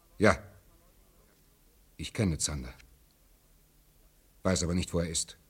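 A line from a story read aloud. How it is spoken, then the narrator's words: Plain. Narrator (German): sagte Kurgel dann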